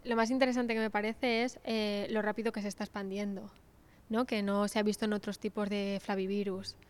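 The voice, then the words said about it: Spanish accent from Spain. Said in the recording (Spanish): “Asumo por tu acento que venías de España”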